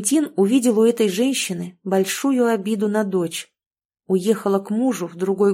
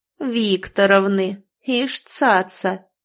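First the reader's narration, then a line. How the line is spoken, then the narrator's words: Old woman's snort. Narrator (Russian): фыркнула вторая старуха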